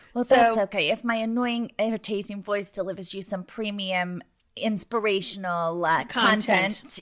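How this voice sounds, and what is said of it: Foreign accent with Jersey influence. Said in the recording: “The Jersey has an infiltrated ... accent ... changed my accent with it”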